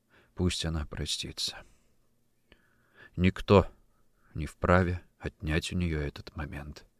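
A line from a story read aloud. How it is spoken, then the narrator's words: Quiet. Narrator (Russian): Император тихо сказал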